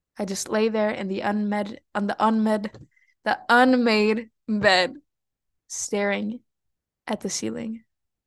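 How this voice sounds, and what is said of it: Mexican accent in English. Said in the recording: “my Mexican accent is gonna keep coming out in English because I've been speaking a lot of Spanish”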